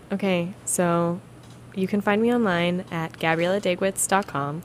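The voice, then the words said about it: Lower, put-on sexy announcer voice. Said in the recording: “You're going for sexy there ... A little bit lower than mine ... It was almost like airplane safety demonstration voice.”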